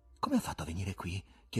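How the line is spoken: Whispered question. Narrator (Italian): chiese Ivan in un sussurro

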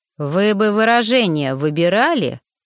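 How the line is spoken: Menacing warning. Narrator (Russian): грозно предупредил распорядитель

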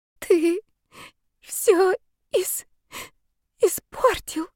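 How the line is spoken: Sobbing girl. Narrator (Russian): всхлипывала девушка

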